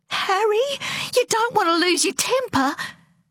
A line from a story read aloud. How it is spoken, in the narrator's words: Once again, her mother squeaked